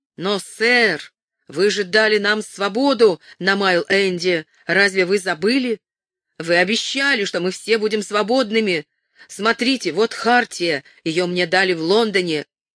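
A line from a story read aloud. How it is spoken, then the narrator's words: Blacksmith shouting nearby. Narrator (Russian): Совсем рядом кузнец прокричал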